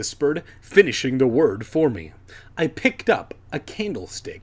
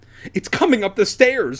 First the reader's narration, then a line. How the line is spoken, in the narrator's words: I cried